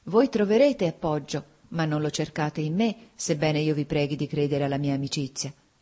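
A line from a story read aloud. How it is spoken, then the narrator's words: Sighing. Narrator (Italian): ella disse con un sospiro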